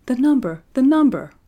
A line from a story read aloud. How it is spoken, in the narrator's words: cried Sabrinetta